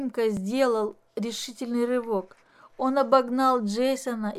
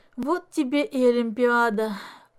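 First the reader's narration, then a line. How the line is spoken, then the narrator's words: Glum, dejected. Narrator (Russian): уныло произнес Денис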